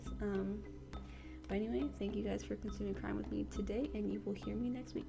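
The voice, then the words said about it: Strained, fading late-night voice. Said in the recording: “I'm losing my voice because it is 2 in the morning”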